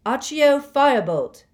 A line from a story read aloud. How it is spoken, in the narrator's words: he shouted